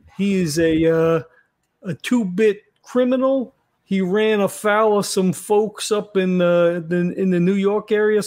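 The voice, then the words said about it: Put-on Brooklyn accent. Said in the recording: “Is that a Jersey accent? ... No, that's from fucking Brooklyn ... Nobody in Jersey sounds like this.”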